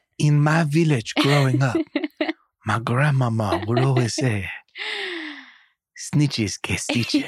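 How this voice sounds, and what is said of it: Attempted French grandmother accent. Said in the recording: “whatever accent that was ... It wasn't French. It wasn't French. ... It almost was French. Grandmama sounded French.”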